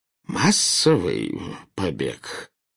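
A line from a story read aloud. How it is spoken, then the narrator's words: Hoarse, faltering question. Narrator (Russian): севшим голосом переспросил премьер-министр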